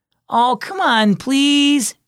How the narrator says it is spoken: Chase begged

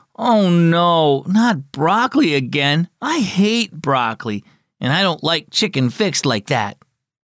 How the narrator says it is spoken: he groaned

